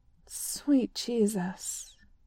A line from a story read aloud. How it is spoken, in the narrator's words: he sighs